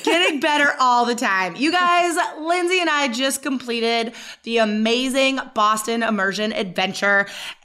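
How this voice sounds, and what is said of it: Slightly hoarse, recovering voice. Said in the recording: “my voice is getting better ... It's clearing right up ... I lost my voice a little bit”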